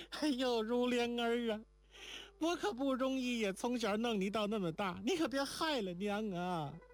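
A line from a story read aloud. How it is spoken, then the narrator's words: Crying. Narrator (Chinese): 连宝哭起来道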